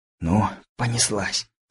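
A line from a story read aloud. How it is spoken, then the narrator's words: Whisper. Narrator (Russian): прошептал Лысый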